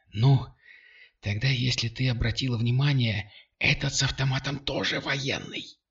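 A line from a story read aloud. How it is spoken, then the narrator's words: Whispered. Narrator (Russian): прошептала она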